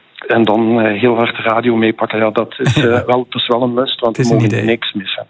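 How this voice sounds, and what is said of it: Light Limburg Flemish accent. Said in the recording (Dutch): “Ik hoor een licht Limburgs accent.”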